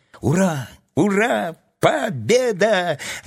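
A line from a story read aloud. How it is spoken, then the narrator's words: Joyful yelling. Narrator (Russian): радостно заорал Тим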